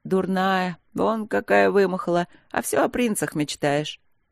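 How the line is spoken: Snorting, laughing. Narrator (Russian): Капитан фыркнула, засмеялась

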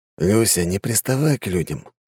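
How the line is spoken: Calm man's voice. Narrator (Russian): спокойно сказал высокий мужчина в плаще

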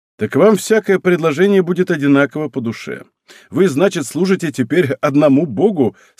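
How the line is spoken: Laughing. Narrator (Russian): сказал, смеясь

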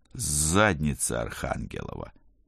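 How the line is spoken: Quiet cursing. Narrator (Russian): тихо выругался я

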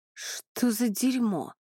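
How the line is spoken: Hoarse rasp. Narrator (Russian): прохрипел Иней

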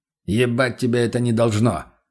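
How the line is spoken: Snapping retort. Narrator (Russian): огрызнулся тот

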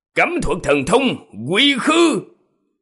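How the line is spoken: Big man shouting. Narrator (Vietnamese): Đại hán nọ quát lên

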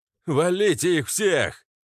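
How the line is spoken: Furious howl. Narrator (Russian): взвыл пахан, увидев, как две торпеды даже не нанесли нам повреждений и сдохли

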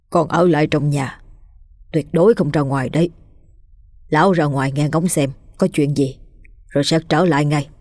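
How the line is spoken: Old man's soft voice. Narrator (Vietnamese): lão khẽ giọng nói

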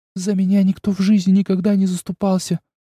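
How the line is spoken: Tearful speech. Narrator (Russian): сквозь слезы проговорила она

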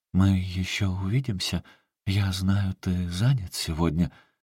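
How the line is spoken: Almost timid question. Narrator (Russian): Сильвия почти робко спросила

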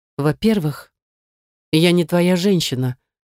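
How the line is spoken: Through gritted teeth. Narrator (Russian): выдала сквозь зубы

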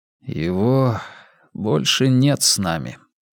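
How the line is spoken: Tired reply. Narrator (Russian): устало ответил он

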